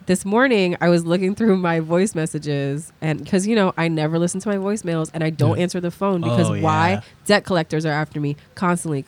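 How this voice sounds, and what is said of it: Voice sounds sick. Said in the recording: “I'm sick. You could hear it in my voice.”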